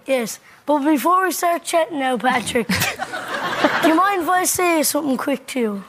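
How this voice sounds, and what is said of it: Incredible regional accent. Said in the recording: “An incredible accent.”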